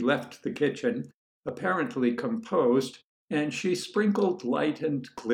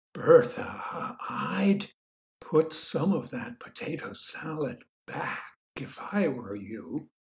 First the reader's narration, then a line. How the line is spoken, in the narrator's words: whispered May